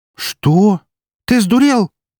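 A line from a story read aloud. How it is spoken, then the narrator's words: Exclaiming. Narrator (Russian): одновременно со мной воскликнула Эри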